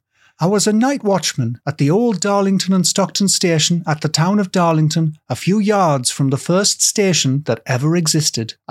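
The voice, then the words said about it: Put-on schoolyard bully accent. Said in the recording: “a Winnet accent, which is like the you know when there's a group of bullies, there's always a tall one ... the Winnet accent from when I was in school”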